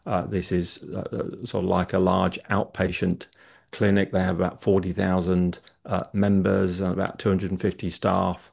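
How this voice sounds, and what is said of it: British English accent. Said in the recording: “as you can tell from my accent, I'm from the UK”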